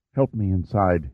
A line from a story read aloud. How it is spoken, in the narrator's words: whispered